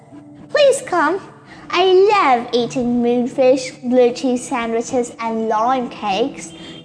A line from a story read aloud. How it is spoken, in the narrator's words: Cockatobird said